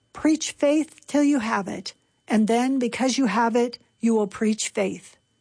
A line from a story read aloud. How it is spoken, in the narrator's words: Peter replied